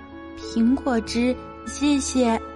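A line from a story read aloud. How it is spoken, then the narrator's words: Soft. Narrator (Chinese): 威勒轻声回答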